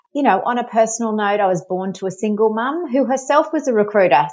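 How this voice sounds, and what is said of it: Australian accent. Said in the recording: “I'm from Australia. You might have been able to tell, pick up the accent.”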